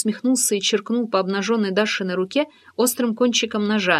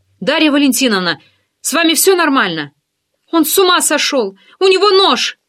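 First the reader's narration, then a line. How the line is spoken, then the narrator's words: Desperate cry. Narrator (Russian): выкрикнула она в отчаянии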